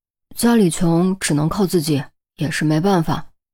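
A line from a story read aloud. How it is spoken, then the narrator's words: Sighing. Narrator (Chinese): 于西感叹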